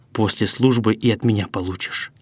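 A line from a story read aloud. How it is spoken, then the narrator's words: Hissed. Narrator (Russian): Гришка прошипел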